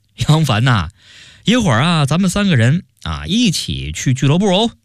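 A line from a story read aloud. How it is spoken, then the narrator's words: Hearty laughter. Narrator (Chinese): 周大业哈哈大笑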